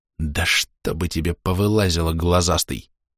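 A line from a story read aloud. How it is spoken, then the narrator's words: Hissing. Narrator (Russian): Прошипел я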